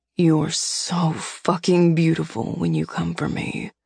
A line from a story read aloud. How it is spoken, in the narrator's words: he growled